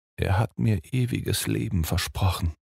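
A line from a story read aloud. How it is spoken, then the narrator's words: Murmured with a sigh. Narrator (German): murmelte, seufzte noch einmal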